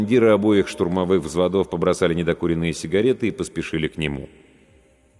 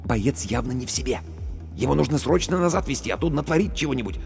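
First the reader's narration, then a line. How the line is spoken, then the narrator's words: Whisper. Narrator (Russian): Командир медотделения шепнул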